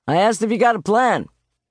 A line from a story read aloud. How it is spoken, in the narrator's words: the uniformed cop shouted again